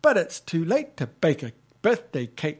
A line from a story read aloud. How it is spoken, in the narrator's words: says Skye